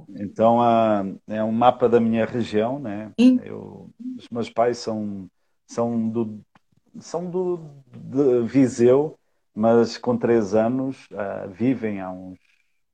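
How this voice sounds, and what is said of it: Brazilian speaker with Portuguese accent. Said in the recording (Portuguese): “Brasileiro com sotaque português.”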